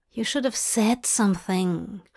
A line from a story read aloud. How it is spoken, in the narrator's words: Hop murmured